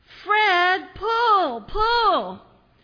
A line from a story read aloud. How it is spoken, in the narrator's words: the farmer yelled really loud